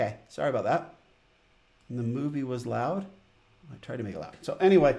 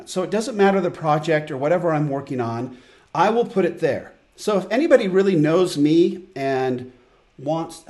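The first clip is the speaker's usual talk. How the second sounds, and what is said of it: Loud yelling voice. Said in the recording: “oh man, it's so loud. ... I'm yelling.”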